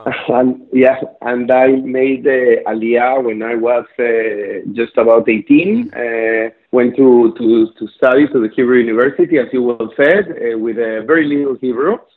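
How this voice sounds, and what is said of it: South American accent. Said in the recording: “based on your accent, I don't think you were born there. I'm sensing a South American connection”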